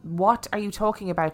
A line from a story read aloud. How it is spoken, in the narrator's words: she asked